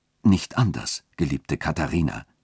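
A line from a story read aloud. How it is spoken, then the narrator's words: Gentle voice. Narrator (German): sagte der Dechant mit sanfter Stimme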